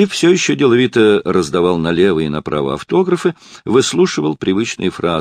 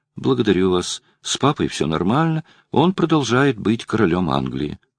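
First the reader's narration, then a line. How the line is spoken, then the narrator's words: Calm female reply. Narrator (Russian): женщина спокойно ответила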